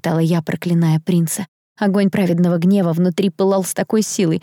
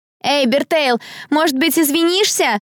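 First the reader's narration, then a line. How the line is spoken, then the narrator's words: Mocking shout. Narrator (Russian): выкрикнула какая-то длинноволосая девица самым издевательским тоном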